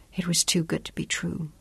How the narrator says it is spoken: whispered

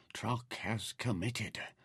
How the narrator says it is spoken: Nefer said softly

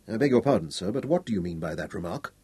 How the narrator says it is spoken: Vincent inquired stiffly

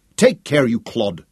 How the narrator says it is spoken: Katinka snapped

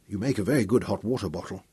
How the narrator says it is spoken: After a while her shivering abated, and she murmured

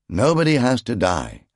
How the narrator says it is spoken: Zaras called back in a placatory and appeasing tone

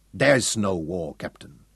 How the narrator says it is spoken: Schroeder told him icily

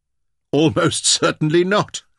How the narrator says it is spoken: laughed

